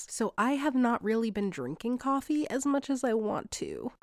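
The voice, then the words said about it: Sick-sounding voice. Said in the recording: “I am very sick, or obviously you can probably hear that in my voice.”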